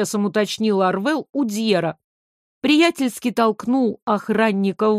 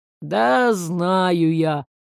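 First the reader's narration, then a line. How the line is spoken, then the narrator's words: Irritated drawl. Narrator (Russian): раздраженно протянул тот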